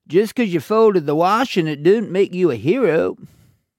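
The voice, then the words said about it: Dr. Phil impression. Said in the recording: “a Dr. Phil accent ... But you've got to get the accent. I haven't got the accent.”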